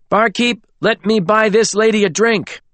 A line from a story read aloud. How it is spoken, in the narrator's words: shouted